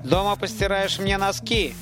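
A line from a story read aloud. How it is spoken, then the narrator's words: Sharp shout. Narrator (Russian): прикрикнул он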